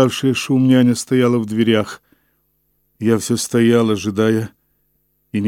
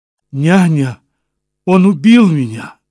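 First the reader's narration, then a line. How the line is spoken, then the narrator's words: Sharp cry. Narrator (Russian): вскрикнула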